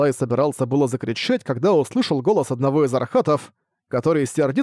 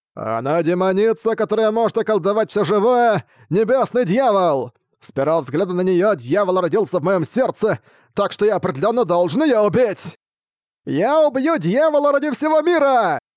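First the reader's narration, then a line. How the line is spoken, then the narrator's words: Shouted. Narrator (Russian): Закричал другой ваджра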